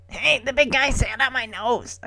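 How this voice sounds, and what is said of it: Imitated puppet character voice. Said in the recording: “doing a Gonzo voice ... I can't do Gonzo.”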